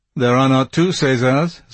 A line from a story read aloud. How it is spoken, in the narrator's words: said the stud groom dryly